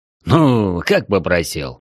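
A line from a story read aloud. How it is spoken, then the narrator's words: Pleased chuckle. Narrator (Russian): хохотнул довольный Веснин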